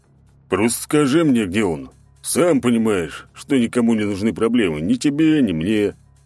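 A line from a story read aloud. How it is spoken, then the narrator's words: Calm, big man. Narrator (Russian): в очередной раз спокойно проговорил здоровяк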